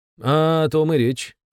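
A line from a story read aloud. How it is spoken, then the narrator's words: Count's snort. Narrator (Russian): хмыкнул граф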